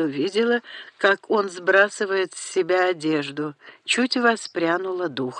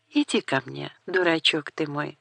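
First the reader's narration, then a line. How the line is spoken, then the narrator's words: Tender sly whisper. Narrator (Russian): прошептала, как смогла, нежно, лукаво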